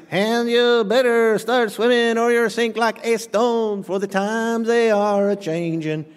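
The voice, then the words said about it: Imitates another person's singing voice. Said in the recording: “See, Pastor, you can't sing. Neither could Bob Dylan, amen? So I did a pretty good imitation there.”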